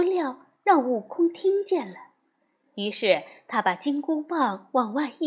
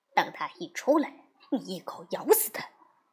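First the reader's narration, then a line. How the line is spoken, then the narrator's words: Whispering. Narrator (Chinese): 三魔悄声的对老魔说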